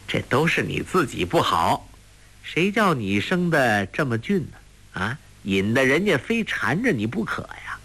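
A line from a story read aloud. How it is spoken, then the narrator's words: Lecherous laughing. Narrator (Chinese): 不由得心痒难搔 笑道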